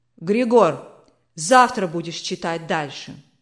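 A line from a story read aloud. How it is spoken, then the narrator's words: Commanding tone. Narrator (Russian): Властным тоном сказал барон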